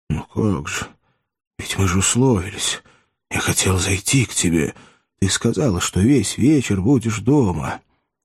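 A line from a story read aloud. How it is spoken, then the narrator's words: Confused whisper. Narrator (Russian): Он зашептал растерянно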